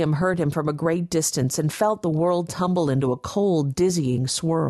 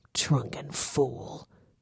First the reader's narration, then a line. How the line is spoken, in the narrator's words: Gideon muttered